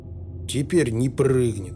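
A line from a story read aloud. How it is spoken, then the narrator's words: Gloomy. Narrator (Russian): мрачно сказал он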